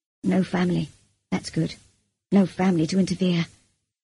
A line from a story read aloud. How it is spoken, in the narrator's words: he murmured